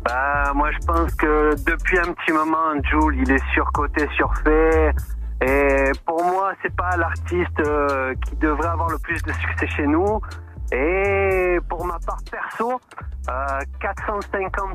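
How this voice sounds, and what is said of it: Marseille accent. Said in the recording (French): “j'appelle de Marseille ... on entend ton accent on entend l'accent”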